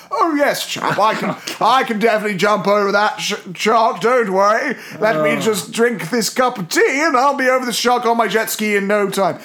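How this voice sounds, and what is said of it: Put-on posh British accent. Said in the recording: “in the correct accent ... offending ... Posh white British people”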